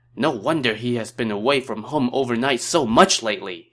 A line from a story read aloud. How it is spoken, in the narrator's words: exclaimed